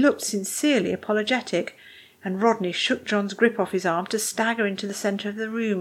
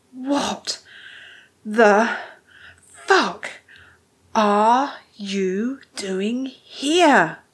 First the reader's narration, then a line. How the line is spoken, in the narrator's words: Rodney ground out each word with a little wheezy pant